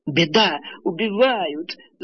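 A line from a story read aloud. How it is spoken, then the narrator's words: Old woman wailing. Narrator (Russian): завопила старуха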